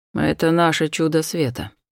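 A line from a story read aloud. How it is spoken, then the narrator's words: Displeased muttering. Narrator (Russian): пробормотал недовольно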